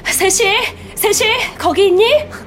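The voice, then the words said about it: Breathless, out-of-breath calling voice. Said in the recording (Korean): “숨찬 목소리로 불렀다”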